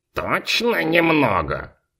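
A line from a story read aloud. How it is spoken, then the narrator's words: Skeptical snort. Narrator (Russian): хмыкнул Фунтик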